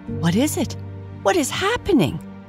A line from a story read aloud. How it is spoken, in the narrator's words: gasped Mrs